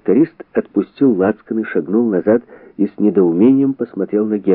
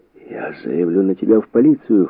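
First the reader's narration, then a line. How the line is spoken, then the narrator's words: Hoarse. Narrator (Russian): хрипло сказал он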